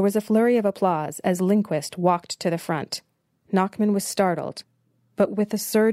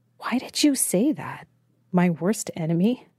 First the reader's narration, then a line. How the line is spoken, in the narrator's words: Nachman whispered